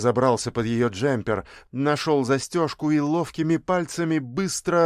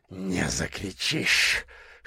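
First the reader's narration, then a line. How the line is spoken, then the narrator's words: Doctor growling, hoarse with desire. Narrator (Russian): хриплым от желания голосом прорычал врач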